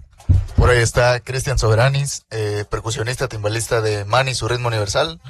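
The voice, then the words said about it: Radio announcer voice. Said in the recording (Spanish): “voz de locutor”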